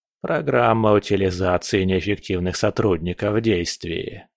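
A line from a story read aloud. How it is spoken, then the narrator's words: Muttered under breath. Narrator (Russian): пробормотал Биба себе под нос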